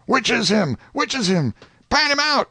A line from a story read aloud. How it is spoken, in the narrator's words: Everybody went shouting